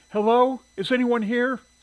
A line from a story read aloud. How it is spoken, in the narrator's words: Shirley called out